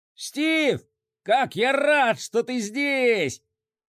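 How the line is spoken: Shouted. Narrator (Russian): крикнул он

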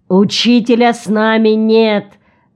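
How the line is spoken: Loud answer. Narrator (Russian): громко ответил Нарад

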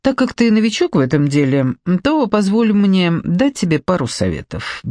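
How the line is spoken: Carefree tone. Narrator (Russian): беззаботным тоном предложил Раун

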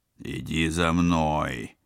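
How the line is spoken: Reluctant growl. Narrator (Russian): вынужденно рыкнул спецагент

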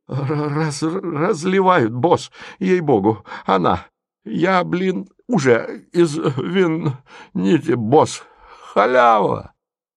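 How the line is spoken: Stammering, joyful. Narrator (Russian): Голос, запинаясь, радостно сообщил

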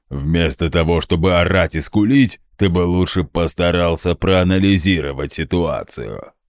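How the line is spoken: Booming drone. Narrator (Russian): Прогудел Гундахар

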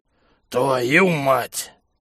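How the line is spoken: Annoyed bark. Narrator (Russian): С досадой рявкнул здоровяк

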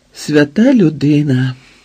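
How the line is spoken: Woman's sigh. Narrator (Ukrainian): зітхнула жінка

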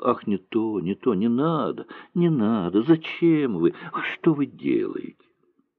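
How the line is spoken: Thin plaintive pleading. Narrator (Russian): Жалобным и тонким голоском она просила

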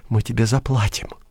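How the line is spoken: Quiet. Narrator (Russian): тихо сказала цесарка

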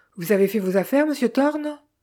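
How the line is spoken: Jovial question. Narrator (French): demanda enfin Eden d'un ton jovial

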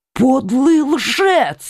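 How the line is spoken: Furious exclamation. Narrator (Russian): воскликнул Коконас в бешенстве

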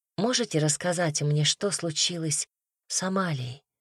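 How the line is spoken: Soft question. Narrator (Russian): мягко спросила Настя

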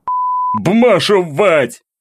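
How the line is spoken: Thug's bellow. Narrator (Russian): орал один из бугаев

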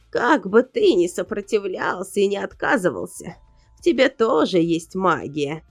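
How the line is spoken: Creaky old voice. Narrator (Russian): проскрипела она

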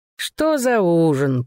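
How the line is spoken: Purring. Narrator (Russian): промурлыкал Дуг

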